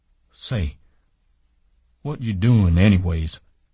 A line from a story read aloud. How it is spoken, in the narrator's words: He cried